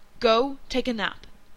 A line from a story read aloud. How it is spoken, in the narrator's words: Dean said firmly, in a tone that brooked no argument